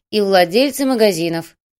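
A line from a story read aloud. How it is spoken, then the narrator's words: Cold. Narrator (Russian): холодно кивнула девушка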